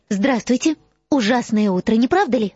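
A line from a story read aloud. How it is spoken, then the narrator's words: Cheerful. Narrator (Russian): Радостно сказала Гермиона Борджину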